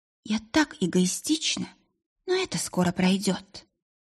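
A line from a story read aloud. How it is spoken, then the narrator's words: Smiling whisper. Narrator (Russian): Улыбнулась и прошептала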